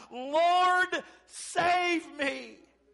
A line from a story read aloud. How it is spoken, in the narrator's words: beginning to sink, he cried out